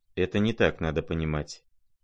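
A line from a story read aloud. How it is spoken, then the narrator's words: Quiet, reluctant. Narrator (Russian): тихо и как бы нехотя ответил князь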